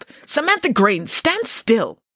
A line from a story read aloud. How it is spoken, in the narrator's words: one of the teachers would angrily snap